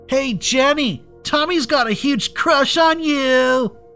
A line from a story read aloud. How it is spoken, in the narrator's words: screamed